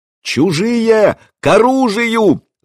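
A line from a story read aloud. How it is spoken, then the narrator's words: Distant sentry's yell. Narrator (Russian): завопил часовой на дальней башенке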